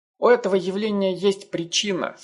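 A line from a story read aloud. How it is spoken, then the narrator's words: Plain. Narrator (Russian): сказал он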